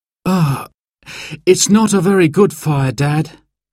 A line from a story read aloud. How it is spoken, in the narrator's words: sighed Simon